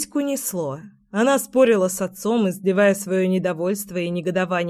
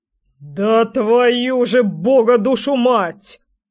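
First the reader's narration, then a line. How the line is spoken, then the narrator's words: Roared. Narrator (Russian): взревел дядя Леша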